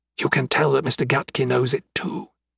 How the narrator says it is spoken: he dropped his voice to a whisper

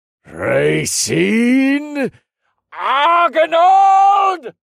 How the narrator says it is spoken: The wizard screamed in a distant part of the castle, but it was loud enough for everyone to hear it, like an echo to the Duke's cry

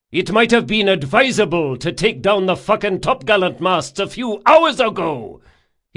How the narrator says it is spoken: he shouted

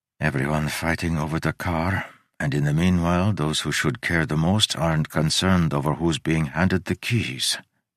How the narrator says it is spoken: he murmured

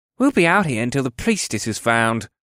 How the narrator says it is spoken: elf grumbled

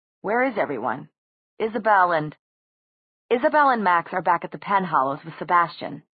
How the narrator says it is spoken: said Alec

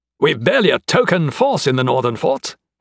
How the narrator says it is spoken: exclaimed

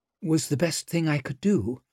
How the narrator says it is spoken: her voice sounded pathetically weak

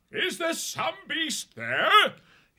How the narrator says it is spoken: He shouted

